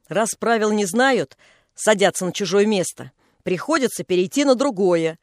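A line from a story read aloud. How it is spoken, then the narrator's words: Angry hinting snort. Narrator (Russian): Женька сердито хмыкнула, говорит с намеком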